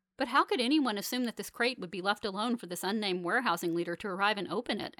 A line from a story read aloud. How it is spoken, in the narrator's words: asks Fanny